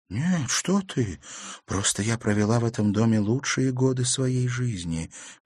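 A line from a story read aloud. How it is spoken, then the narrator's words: Sad female voice. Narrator (Russian): печально произнесла незнакомка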